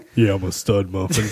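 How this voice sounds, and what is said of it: Put-on goofy dad voice. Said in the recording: “Why do you have to talk like that? ... That's my dad voice.”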